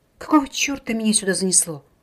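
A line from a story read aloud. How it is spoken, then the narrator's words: Grumbling aloud. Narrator (Russian): вслух проворчала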